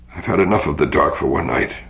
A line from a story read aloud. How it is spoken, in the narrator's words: muttered Biren